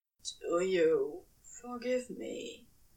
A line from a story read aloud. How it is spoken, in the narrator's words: Crowley asked, finally, his voice hoarse with hope